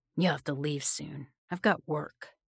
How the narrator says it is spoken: he grunted at me

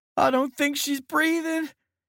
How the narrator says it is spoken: Haywood wailed

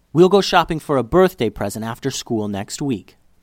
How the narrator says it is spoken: Liddy's mom said

